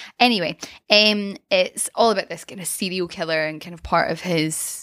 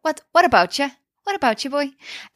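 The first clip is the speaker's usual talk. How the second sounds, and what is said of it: Put-on Northern Irish accent. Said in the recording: “Northern Ireland ... I've really been working on my accent ... It's really good.”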